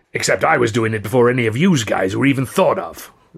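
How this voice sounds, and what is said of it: Surly growling New York accent. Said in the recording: “Rouge growled. Seeing him and hearing his rather surly New York accent”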